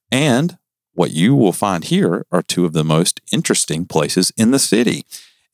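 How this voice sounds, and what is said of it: Southern US accent. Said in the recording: “Don't make fun of my accent. I'm from the South.”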